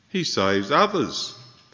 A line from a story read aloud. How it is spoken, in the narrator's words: they said